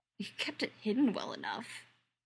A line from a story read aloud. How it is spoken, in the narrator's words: Charles mutters